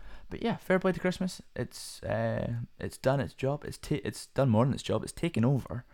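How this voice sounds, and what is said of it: Usual voice. Nothing is said of it.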